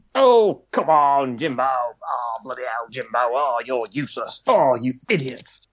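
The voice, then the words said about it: Imitates another person's voice. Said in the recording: “I can do an impression of this man. It's the best impression in the world. It's definitely not the best impression in the world. ... Jeremy Clarkson. ... It sounded a bit more youthful to me”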